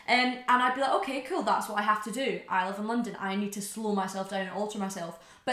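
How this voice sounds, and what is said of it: Somewhat posh Scottish accent. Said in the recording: “it's my accent ... you're not really Scottish. You've got a posh accent ... I'm not Scottish enough, or I'm too Scottish for them”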